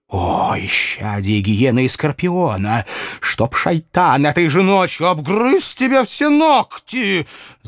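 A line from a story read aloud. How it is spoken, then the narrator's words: Woman's angry hiss. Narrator (Russian): Злобно зашипела женщина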